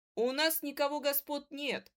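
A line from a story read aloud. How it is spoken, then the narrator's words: Sharp snapping retort. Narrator (Russian): огрызнулся Ларька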